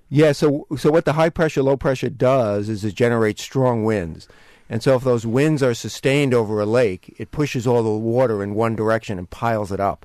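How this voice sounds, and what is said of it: New York accent. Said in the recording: “Given my New York accent, I could easily blame it on that.”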